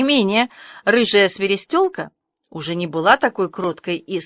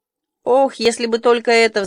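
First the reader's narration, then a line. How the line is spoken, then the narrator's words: Sighing. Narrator (Russian): вздохнула Аня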